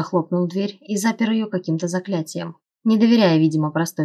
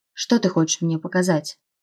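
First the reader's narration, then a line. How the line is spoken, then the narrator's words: Barely audible question. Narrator (Russian): спросила я едва слышно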